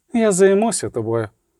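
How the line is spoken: Repeated. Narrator (Ukrainian): повторила Тісея Дефрейс

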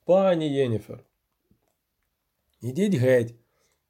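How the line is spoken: Calm sorceress's command. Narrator (Ukrainian): спокійно наказала чародійка

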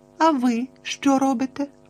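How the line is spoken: Innocent questioning voice. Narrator (Ukrainian): невинним голосом перепитала Тіна

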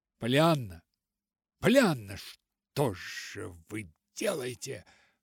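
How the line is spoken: Exclaimed. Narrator (Russian): воскликнула она

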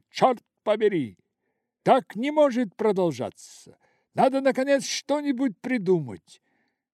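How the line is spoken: Furious trembling shout. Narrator (Russian): Дрожа от бешенства, он выкрикнул

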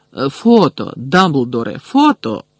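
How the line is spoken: Excited exclamation. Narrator (Ukrainian): збуджено вигукнув Бегмен

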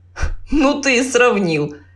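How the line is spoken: Laughing. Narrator (Russian): засмеялся второй

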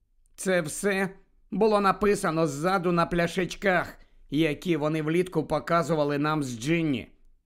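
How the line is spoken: Cold explanation. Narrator (Ukrainian): холодно пояснила

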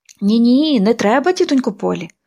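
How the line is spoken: Desperate exclamation. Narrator (Ukrainian): розпачливо вигукнула Поліанна

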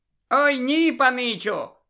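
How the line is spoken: Joyful. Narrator (Ukrainian): радісно пояснив Добі

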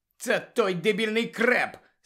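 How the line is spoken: Angry. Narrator (Ukrainian): сердито сказала Анджеліна

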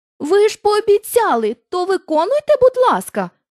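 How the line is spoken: Exclaiming. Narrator (Ukrainian): вигукнула Дороті

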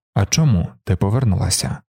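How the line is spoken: Cold question. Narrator (Ukrainian): холодно поцікавився Далінар

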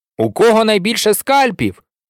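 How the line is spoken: Firm repetition. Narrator (Ukrainian): твердим голосом повторює Сем

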